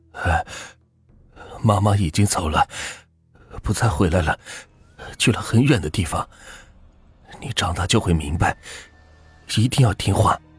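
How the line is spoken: Trembling, shaky voice. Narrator (Chinese): 老万听到这儿，声音一颤，有些发抖的说

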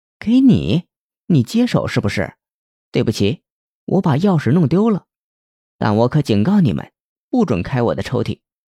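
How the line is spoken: Sneering. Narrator (Chinese): 文会计冷笑道

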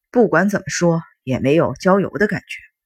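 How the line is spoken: Discontented grumbling. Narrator (Chinese): 熊座不满地嘟囔着，发了句牢骚

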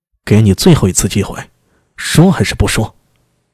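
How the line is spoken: Harsh, stern. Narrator (Chinese): 苏大为 厉声道

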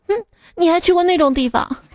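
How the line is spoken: Cold sneer. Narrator (Chinese): 老婆就冷笑道

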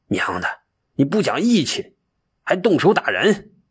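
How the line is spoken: Furious. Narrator (Chinese): 他不禁怒火三千丈

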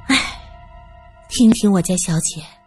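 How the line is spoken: Sighing. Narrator (Chinese): 小翠叹息着

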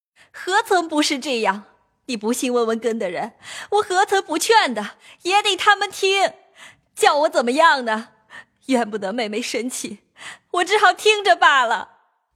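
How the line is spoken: Crying. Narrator (Chinese): 尤氏也哭道

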